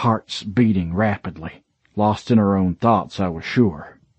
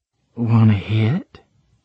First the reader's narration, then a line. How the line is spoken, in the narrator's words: she purred